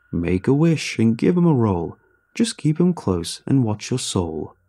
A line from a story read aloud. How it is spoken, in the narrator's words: sings the voice merrily